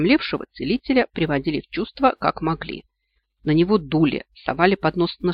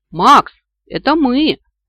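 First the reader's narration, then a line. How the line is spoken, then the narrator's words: Shout through cupped hands. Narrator (Russian): крикнула я ему, сложив ладони рупором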